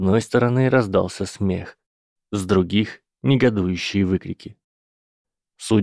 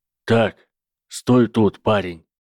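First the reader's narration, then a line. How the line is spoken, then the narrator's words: Booming voice. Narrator (Russian): сказал мистер Хагрид гулким тоном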